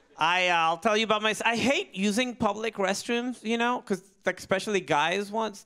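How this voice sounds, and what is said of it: Noticeable foreign accent. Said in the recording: “My accent is funny ... my accent is funny. I'm from a certain part of the world.”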